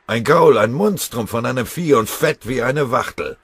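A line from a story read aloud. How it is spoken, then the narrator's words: Bellowing soldier. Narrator (German): brüllte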